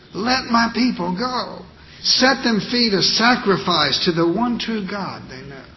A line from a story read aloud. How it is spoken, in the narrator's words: cried